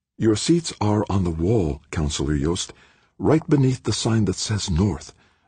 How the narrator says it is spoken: the attendant whispered

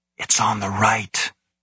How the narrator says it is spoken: whispered

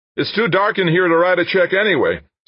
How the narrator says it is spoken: someone else called out

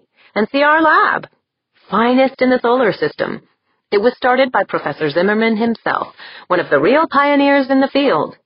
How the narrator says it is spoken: Tori said cheerfully

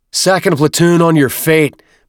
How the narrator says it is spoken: Byrne bellowed

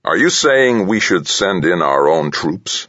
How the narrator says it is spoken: the president asked

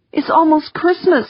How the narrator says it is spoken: pleaded

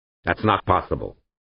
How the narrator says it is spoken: snapped the representative from North America, a dough-faced, white-haired professor in an academic's tweed jacket

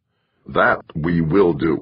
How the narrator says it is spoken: Hasdrubal said firmly

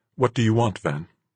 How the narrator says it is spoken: asked tightly

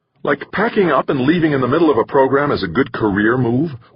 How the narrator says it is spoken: one of the women snapped

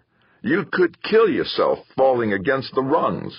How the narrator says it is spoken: Victor had roared

